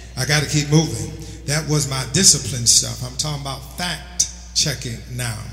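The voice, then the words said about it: New York accent. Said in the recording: “My New York accent might be messing this up for your ear.”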